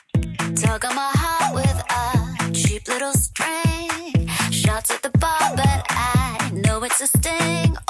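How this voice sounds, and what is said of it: Singing in a baby voice. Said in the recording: “Oh, singing a baby voice.”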